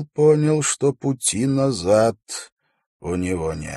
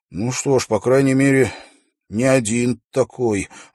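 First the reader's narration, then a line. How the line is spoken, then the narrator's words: Male sigh. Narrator (Russian): вздохнул он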